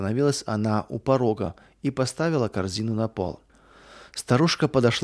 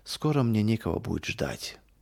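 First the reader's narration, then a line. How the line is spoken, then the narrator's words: Heavy sigh, sad old woman. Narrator (Russian): ответила бабушка Катерина и, тяжело вздохнув, добавила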